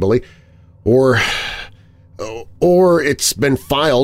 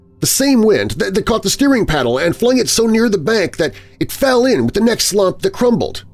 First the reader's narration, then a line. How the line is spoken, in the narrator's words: I called out after him, absolutely determined to find an explanation for everything he showed me